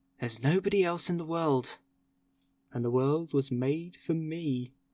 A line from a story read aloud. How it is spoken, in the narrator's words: And I'd say to myself